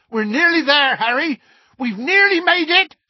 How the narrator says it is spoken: shouted Hagrid

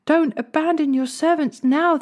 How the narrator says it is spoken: they pleaded

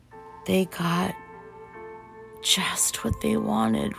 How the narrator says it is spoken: Rose murmured

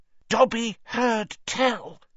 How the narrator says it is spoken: he said hoarsely

